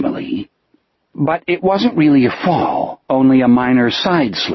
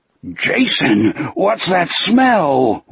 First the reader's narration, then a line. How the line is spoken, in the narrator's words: Wolf groaned